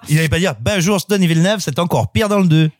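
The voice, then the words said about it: Put-on Québécois French accent. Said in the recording (French): “L'accent québécois, t'as pas le droit.”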